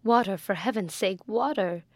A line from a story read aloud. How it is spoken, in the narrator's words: she cried